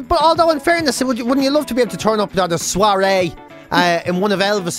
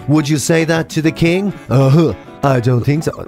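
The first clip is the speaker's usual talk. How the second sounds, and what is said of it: Poor imitation of another person's voice. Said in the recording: “That was the worst Elvis impression ever, wasn't it?”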